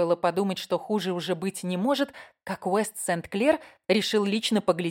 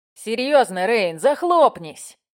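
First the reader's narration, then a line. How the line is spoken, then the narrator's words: Barked shout. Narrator (Russian): гаркнул Истон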